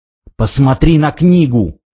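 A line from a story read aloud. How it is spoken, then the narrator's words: Hiss. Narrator (Russian): прошипел он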